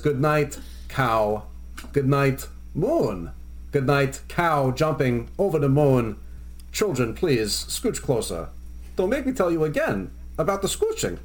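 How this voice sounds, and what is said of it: Imitates another person's voice. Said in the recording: “your impression of Christopher Walken or your impression of Jay Moore doing Christopher Walken”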